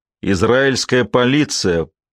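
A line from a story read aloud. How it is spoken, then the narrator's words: Growl. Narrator (Russian): прорычал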